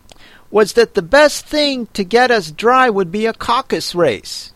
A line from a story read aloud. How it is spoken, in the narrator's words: said the dodo in an offended tone